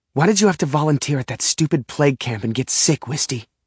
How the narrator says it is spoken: I whisper shout at her through angry tears

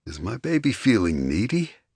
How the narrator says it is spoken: He purred

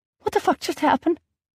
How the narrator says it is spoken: I squeaked out

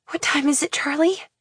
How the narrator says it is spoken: I whisper, horrified

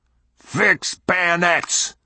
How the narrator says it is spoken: roared Captain Clardy

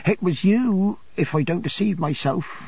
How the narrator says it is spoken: she said in a broken voice

